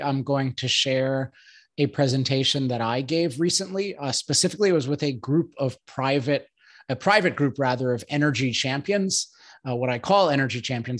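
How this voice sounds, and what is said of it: Slightly off, strained voice. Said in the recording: “my voice is a little off today ... I'm recovering from sickness ... my voice sometimes gets trashed”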